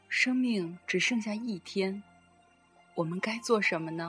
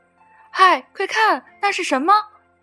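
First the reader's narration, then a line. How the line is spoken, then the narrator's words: Excited shout. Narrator (Chinese): 弟弟叫了起来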